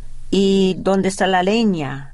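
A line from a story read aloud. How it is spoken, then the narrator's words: Plain. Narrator (Spanish): dijo ella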